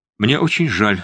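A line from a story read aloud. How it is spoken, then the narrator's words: Plain. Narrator (Russian): сказал он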